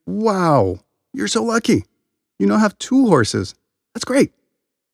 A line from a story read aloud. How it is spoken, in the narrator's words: The villagers exclaimed